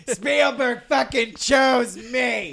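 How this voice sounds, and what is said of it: Raspy imitation of another person's voice. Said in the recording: “my Colin Trevorrow impression ... You sound like a drunk TJ Miller ... he's got one of those raspy voices”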